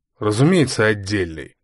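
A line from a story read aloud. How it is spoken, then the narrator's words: Irritated, mock-lordly. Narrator (Russian): раздраженно ответил Мармеладов, изображая привередливого барина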